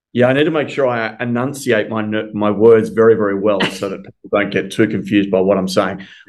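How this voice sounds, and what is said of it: Australian accent. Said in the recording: “I'm sure the audience is going to love the accent ... I'm calling in from Melbourne, Australia ... your accent just like pulls me in”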